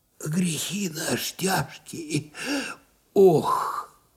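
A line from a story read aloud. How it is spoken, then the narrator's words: Sighing whisper. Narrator (Russian): Опять кто-то вздохнул и даже как будто прошептал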